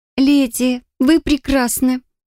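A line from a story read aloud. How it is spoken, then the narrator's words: Exclaimed. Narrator (Russian): воскликнула Авина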